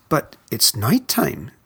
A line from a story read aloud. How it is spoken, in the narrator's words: Stella Luna squeaked